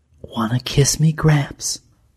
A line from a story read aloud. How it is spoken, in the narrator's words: she murmured